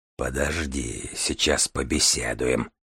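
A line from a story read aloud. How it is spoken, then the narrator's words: Soundless breathy whisper. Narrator (Russian): выдохнул Мальгин беззвучно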